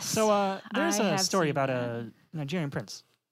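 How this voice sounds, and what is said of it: Mock public radio host voice. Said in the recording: “my NPR voice.”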